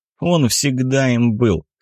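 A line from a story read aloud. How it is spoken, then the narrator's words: Scoffing snort. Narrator (Russian): хмыкнул Виталий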